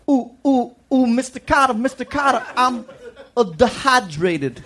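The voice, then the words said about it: Imitates a TV character's voice. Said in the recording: “This is my impression of Vinnie Barbarino ... when he's really thirsty and wants a drink of water ... how bad I am”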